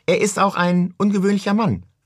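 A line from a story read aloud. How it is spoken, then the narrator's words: Calling from behind. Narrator (German): rief sie von hinten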